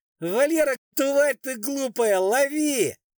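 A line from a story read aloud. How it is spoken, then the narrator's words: Shout. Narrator (Russian): Она крикнула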